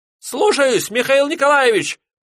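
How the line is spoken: Boatswain squeaking. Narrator (Russian): пропищал боцман

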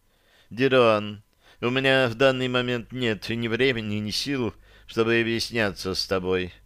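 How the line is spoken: Gentle. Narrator (Russian): ласково произнесла

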